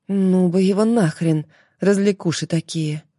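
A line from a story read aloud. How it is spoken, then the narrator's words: Inner sigh. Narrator (Russian): Внутренне вздохнула Марфа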